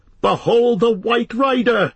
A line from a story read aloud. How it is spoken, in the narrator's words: cried Aragorn